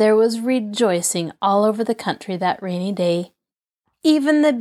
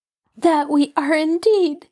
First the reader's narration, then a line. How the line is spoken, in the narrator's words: answered the princess, sobbing